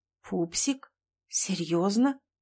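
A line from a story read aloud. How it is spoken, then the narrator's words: Muttered. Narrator (Russian): пробормотала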